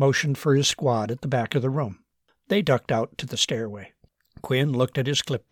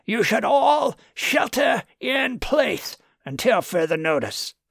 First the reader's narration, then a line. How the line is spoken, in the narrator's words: bellowed Quinn